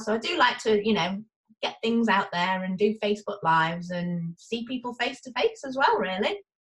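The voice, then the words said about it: Northwest English accent. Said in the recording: “your accent tells us you're from... ... I'm from England, but I don't sound like the Queen's English ... I am North England, northwest, near Liverpool and Manchester”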